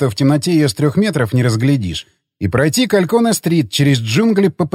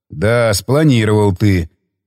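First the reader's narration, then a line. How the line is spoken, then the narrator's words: Male scoff. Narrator (Russian): хмыкнул он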